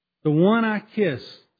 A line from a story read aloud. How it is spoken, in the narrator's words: said Judas